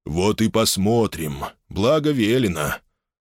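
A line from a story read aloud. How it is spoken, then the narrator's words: Usual, unsweetened voice. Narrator (Russian): Уже своим обычным и далеко не елейным голосом проговорил Арун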